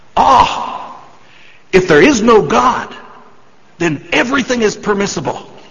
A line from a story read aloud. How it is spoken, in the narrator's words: Ivan, who is the priest, shouts